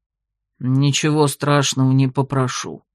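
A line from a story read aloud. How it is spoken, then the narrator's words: Gloomy grumble, bear. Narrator (Russian): мрачно буркнул медведь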